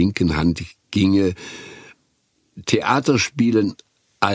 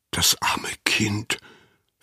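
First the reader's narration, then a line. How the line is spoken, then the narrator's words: Whisper. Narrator (German): flüsterte Anna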